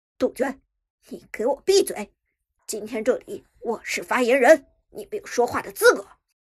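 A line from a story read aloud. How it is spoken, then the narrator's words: Harsh, stern. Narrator (Chinese): 唐老板厉声道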